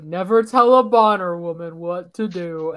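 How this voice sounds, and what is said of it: Imitates a TV character's voice. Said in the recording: “Do you like my Gus impression? ... Yes, that was great.”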